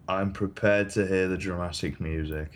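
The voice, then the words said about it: Bored, flat delivery. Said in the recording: “You sound so bored!”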